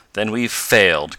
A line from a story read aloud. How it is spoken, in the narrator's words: cried Tom bitterly